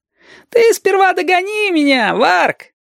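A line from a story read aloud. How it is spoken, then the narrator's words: Laughing. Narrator (Russian): Засмеялся Женька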